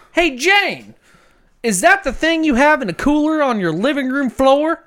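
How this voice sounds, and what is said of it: Put-on Florida accent. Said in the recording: “Is that sound like a Florida accent? ... Florida, ... for sure.”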